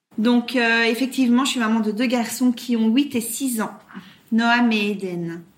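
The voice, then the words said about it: Slight Belgian French accent. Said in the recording (French): “tu as un petit accent qui vient tout droit de Belgique ... À l'origine, je suis bruxelloise ... D'où mon accent.”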